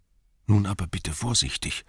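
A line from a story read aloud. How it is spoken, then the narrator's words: Whispering. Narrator (German): flüsterte der Hobbit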